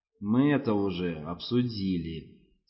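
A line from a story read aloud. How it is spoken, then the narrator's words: Quiet, deadly voice. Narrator (Russian): сказал Геджес тихим смертоносным голосом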